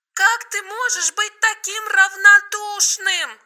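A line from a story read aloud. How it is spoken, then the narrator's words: Shouting. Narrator (Russian): кричала Маша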